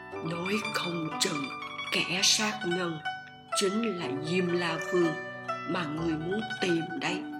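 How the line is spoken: Whisper in ear. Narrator (Vietnamese): Lý Liên Hoa nói khẽ bên tai lão

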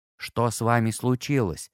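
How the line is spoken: Quiet question. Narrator (Russian): тихо спросил Том

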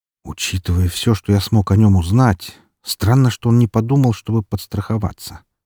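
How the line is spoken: Muttered. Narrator (Russian): пробормотал я

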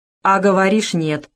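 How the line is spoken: Stern. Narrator (Russian): строго сказал Зубов

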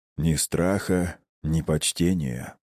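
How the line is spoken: Calm. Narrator (Russian): все тем же спокойным голосом произнес хозяин подземелья

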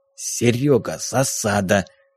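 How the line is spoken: Whisper. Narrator (Russian): склонившись к приятелю, шепнул Ильич

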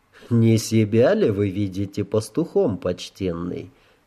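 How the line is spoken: Calm inquiry. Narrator (Russian): спокойно осведомился провокатор

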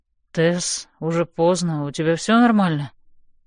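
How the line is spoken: Sleepy voice. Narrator (Russian): произносит он заспанным голосом

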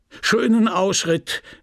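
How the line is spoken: Called out. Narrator (German): rief Monsieur Homais

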